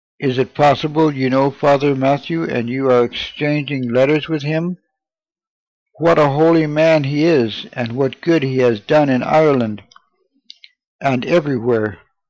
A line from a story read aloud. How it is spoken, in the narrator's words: they answered